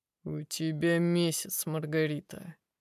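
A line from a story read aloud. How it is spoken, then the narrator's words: Dry tone. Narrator (Russian): произносит гость сухим тоном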